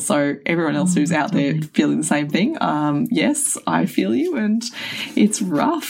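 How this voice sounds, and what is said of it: Hoarse, rough voice. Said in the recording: “as everyone probably hear now, my voice is rubbish ... I've just been smashed with like recurrent laryngitis”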